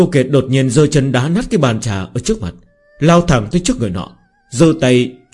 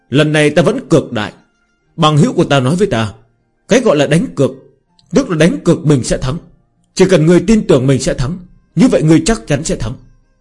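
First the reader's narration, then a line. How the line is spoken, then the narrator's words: Loud shout. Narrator (Vietnamese): Hắn hét lớn một tiếng, nói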